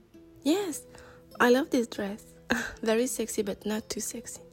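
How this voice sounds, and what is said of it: French accent. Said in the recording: “I grew up in France. ... My accent is sexy.”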